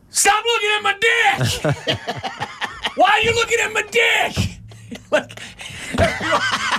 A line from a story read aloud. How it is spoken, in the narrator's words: scream